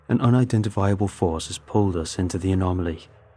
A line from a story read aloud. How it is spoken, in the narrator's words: Captain Poulton said